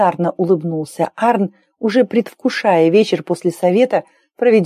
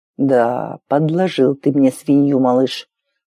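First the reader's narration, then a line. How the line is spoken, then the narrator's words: Displeased parent grumbling. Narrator (Russian): проворчал недовольный родитель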